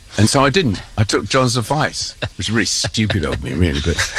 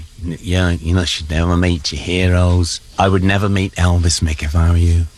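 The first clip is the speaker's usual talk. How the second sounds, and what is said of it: Imitates another person's voice. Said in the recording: “great Lennon impression ... doing impersonation of Lennon. That is priceless.”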